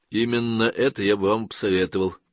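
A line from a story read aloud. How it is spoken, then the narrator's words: Dry reply. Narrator (Russian): сухо ответил Эллиот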